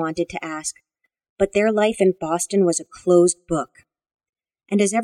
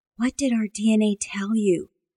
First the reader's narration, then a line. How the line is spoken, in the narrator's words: Amanda whispered